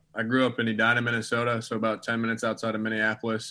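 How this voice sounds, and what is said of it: Minnesota accent with Southern touches. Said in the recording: “the accent is definitely not a uh, typical Minnesota accent, so I see Hattiesburg's rubbed off on you a little bit ... I got a little mix of both”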